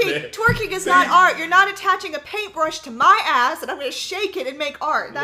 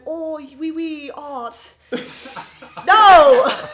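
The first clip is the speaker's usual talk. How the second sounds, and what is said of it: Put-on French accent, fairly good. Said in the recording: “That's a pretty good French impersonation. ... She's giving us French out here.”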